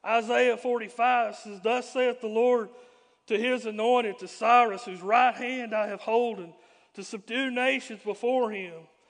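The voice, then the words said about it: Hoarse, strained voice. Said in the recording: “I'm losing my voice. I've been fighting this mess all day.”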